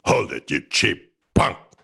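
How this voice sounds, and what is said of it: Impression of William Conrad as Cannon. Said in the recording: “he'd do other impressions and he would do an impression. It's an obscure one, but a very satisfying one of William Conrad as Cannon”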